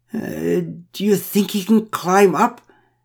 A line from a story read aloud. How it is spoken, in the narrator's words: asked Pamela McPherson with a quavering voice